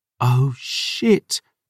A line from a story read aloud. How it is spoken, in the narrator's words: Dior breathed